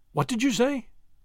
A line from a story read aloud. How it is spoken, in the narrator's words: she asked, her fingers playing nervously